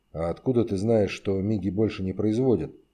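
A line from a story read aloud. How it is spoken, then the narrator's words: Quiet question. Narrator (Russian): тихо спросил Шишкин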